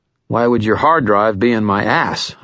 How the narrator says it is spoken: I said

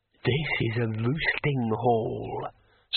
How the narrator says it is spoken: said the dragon in a satisfied tone

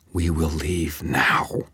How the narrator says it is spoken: she growled

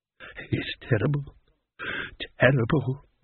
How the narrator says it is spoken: muttered one of them

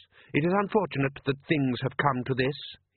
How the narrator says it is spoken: he said stiffly

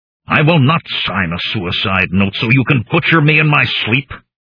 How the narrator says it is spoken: I snarled at him

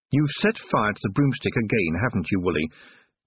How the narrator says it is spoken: stated firmly

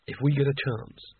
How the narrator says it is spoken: whispered Rincewind to Nigel

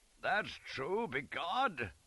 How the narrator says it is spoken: Scarlet exploded in laughter

